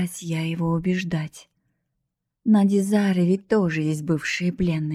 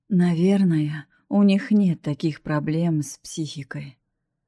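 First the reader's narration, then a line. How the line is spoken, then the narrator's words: Sighing. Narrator (Russian): вздохнул Атрион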